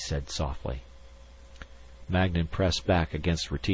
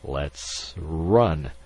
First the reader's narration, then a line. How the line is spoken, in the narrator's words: he faltered